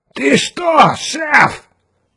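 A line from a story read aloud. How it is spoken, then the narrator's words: Shrill squealing question. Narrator (Russian): визгливым голосом спросил капитан Фьючер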